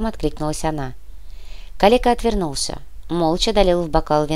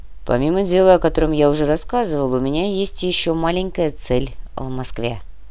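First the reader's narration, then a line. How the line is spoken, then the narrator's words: Calm. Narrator (Russian): спокойно ответил Фома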